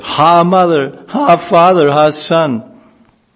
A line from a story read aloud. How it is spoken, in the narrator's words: A devastating fire suddenly broke out, from all sides, cries of